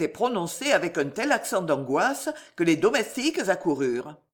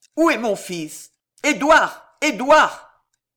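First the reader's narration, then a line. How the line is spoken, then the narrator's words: Shouting. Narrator (French): en criant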